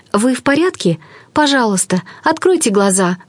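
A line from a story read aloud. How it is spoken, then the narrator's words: Pleading. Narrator (Russian): взмолилась она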